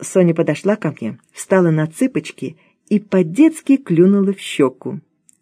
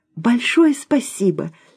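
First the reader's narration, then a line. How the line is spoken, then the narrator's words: Heartfelt exclamation. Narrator (Russian): с чувством воскликнула она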